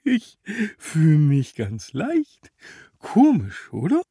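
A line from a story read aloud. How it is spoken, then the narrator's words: Giggling. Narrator (German): kicherte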